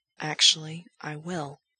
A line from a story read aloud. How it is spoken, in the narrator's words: Gerard says, whispering the words close to Frank's ear